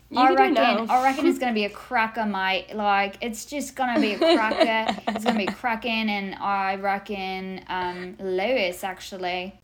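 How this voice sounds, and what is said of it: Put-on Australian accent. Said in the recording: “We should have done an Australian accent this episode.”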